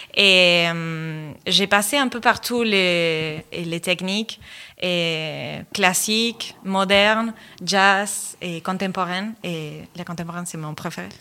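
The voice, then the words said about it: Charming Argentine accent in French. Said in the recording (French): “je viens de l'Argentine ... C'est pour ça votre petit accent charmant ... C'est mon petit accent”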